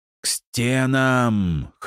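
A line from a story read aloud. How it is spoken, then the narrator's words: Hoarse shout. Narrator (Russian): хрипло прокричал Джулиан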